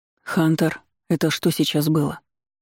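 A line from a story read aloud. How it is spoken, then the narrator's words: Quiet question. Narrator (Russian): Тихо спросил у отца полувамп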